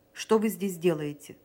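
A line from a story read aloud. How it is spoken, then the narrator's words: Stern question. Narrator (Russian): строго спросил его Санин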